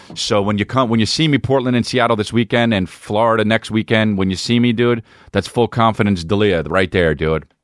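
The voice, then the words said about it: Strained, worn-out voice. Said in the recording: “My voice is going. I think I'm screaming more in my act now”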